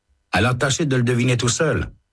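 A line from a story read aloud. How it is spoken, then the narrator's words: Man answering curtly. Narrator (French): répond l'homme sèchement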